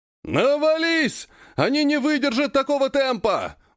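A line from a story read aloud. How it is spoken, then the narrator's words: Yelling. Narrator (Russian): вопит кто-то среди противников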